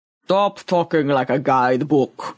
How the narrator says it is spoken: rumbled Boaz

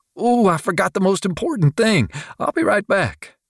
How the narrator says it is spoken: Shirley squeaked

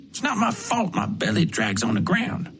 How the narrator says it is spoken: Frank mumbled

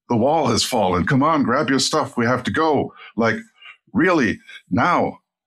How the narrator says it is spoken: I yelled at him

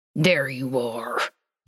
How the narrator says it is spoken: Dean said through gritted teeth

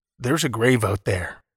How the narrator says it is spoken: he said

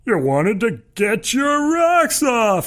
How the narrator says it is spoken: he shouts in a high-pitched cackle

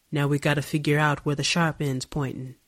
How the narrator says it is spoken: she said

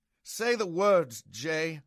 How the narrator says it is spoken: I begged

